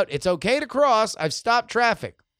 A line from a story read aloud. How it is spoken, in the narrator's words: called out